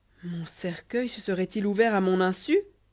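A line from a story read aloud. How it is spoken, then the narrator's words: Exclaimed. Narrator (French): s'écria-t-il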